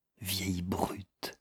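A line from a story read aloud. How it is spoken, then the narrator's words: Murmured. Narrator (French): murmura Miss Eldruda à Miss Elfreda Wilkins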